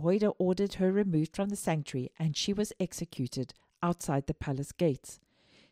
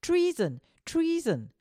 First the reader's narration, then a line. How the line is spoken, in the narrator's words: Athaliah ... called out